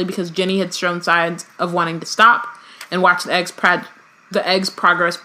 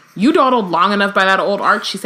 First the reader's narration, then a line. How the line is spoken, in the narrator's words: she said crossly